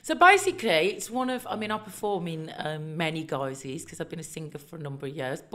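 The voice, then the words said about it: Birmingham accent. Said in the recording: “I'm originally from Birmingham, in case you can't tell by the really mild accent.”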